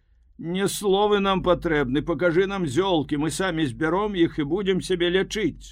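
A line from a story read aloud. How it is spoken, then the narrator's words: Shouting. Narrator (Belarusian): крычалі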